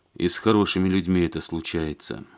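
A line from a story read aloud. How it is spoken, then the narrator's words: Sighing. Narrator (Russian): вздохнул Алексей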